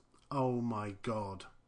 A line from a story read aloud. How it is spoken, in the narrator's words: All he can mutter is